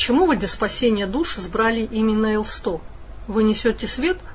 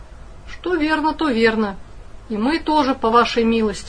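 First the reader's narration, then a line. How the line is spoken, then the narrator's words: Sigh. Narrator (Russian): вздохнул служащий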